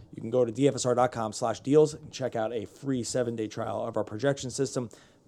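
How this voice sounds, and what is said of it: Hoarse, strained voice. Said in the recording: “I'm losing my voice, buddy”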